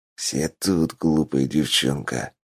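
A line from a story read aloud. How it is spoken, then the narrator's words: Hissed. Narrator (Russian): прошипел Хина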